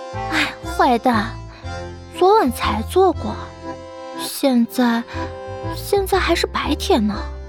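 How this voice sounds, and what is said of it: Soft, shy whispering voice. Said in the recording (Chinese): “娇羞地扑倒在他怀里……小声地说道”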